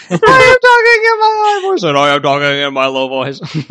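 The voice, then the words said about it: Deliberately low-pitched voice. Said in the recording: “you talk in a low voice and I'll talk in a high voice”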